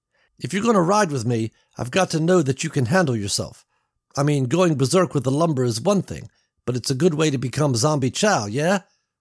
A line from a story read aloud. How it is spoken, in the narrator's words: said